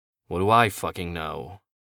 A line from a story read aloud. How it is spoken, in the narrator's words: Kenny sighed